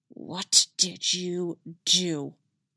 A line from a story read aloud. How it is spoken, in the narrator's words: She hissed at him